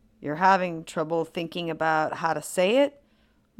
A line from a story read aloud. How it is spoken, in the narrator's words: Mulder says